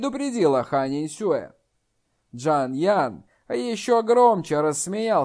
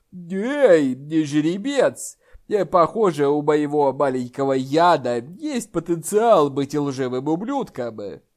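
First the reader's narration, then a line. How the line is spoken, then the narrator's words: Laughing. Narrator (Russian): Толстый Хань рассмеялся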